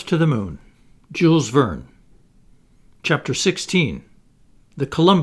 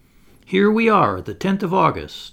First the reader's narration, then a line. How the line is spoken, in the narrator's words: exclaimed J